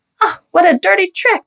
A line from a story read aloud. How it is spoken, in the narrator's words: the lady cried out, her cheeks turning red